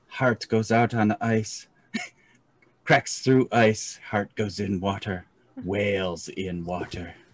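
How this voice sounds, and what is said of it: Character voice with an accent. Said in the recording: “accent kind of almost creeps out”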